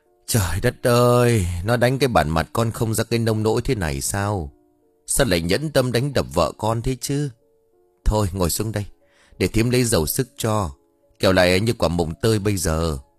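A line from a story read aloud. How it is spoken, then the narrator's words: Sighing. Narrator (Vietnamese): thở dài đáp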